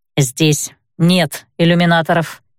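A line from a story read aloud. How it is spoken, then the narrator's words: Grumble. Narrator (Russian): проворчала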